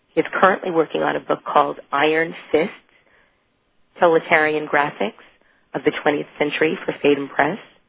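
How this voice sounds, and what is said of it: Sick, under-the-weather voice. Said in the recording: “You sound so sick... I am a little bit under the weather... it's the sexy voice”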